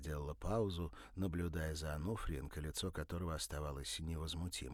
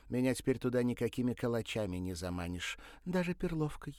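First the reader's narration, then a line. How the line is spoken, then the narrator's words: Snide remark. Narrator (Russian): добавила ехидно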